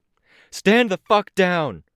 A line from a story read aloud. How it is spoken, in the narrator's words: shouted